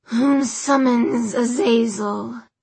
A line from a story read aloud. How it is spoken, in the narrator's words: His voice was like metal grinding on metal